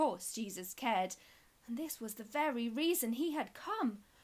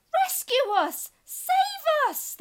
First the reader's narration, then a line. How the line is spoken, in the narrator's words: they shrieked